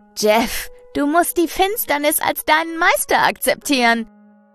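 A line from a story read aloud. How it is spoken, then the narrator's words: Fanatical shouting. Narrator (German): ruft er fanatisch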